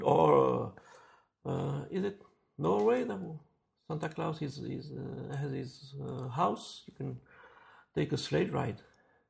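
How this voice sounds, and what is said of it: Non-native accent. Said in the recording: “Excuse my accent.”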